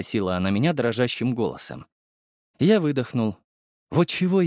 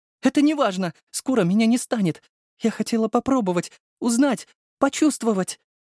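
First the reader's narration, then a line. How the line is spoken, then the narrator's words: Sobbing. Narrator (Russian): всхлипывала Царёва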